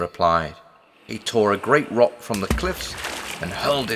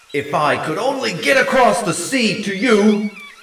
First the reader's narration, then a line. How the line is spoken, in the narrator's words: shouted